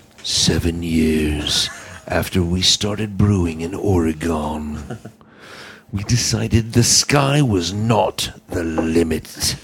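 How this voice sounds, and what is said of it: Dramatic movie trailer voice. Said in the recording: “Should I do this in my movie voice? ... in my movie voice.”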